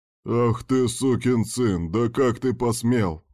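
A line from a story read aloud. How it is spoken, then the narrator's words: Growling bass. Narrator (Russian): рычащий бас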